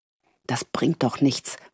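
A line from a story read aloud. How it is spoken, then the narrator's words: Frustrated murmur. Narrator (German): murmelte sie frustriert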